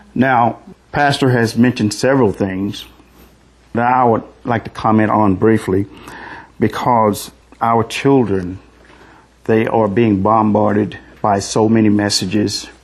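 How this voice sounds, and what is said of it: Southern American accent. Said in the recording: “excuse my southern accent”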